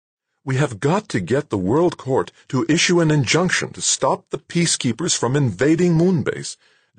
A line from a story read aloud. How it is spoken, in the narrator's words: was saying, her voice urgent, somewhere between cajoling and pleading